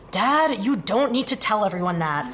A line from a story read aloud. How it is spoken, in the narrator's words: Foggy groaned to the concrete flooring